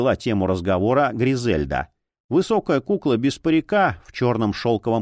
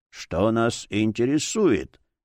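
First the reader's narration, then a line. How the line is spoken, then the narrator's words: Muffled old voice. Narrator (Russian): глухо ответил старческий голос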